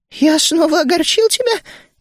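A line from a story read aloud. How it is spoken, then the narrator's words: Frightened question. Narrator (Russian): испуганно спросил Ми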